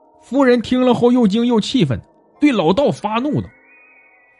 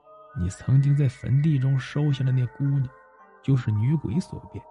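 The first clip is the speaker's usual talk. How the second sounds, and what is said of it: Quiet, whispered voice. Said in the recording (Chinese): “靠近她的耳边，小声说”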